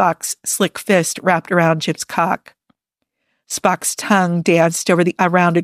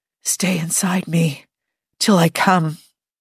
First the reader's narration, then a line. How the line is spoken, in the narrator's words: Jim whispered